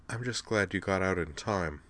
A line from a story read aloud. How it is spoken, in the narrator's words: She sighed, a long, shuddery sigh, shed a single tear, and then said